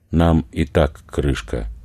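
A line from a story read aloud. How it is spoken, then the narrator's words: Overly calm. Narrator (Russian): чересчур спокойно проронил Владислав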